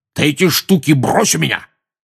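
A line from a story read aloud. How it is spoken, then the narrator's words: Barked. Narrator (Russian): рявкнул дядя Вернон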